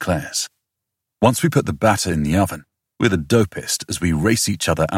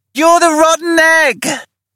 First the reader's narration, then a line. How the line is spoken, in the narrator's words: he shouts